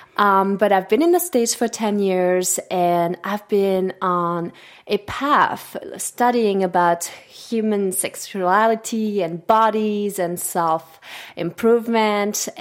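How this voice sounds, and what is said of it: Swiss French accent. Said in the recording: “if you're wondering about the accent ... I'm from Switzerland, and I speak French. That's my native language.”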